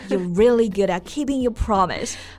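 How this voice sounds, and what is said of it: Sarcastic tone. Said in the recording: “you're being sarcastic.”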